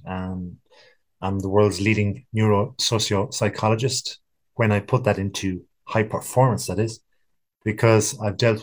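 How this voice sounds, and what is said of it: West of Ireland accent. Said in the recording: “I perhaps have a funny accent. I'm in the west of Ireland right now and I'm born here and therefore the accent.”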